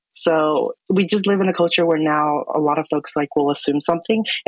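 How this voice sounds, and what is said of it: Male voice, higher than usual pitch. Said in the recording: “my voice is a little bit higher than most guys”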